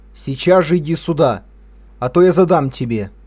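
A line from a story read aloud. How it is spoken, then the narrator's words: Sterner angry shout, father. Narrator (Russian): еще суровее закричал отец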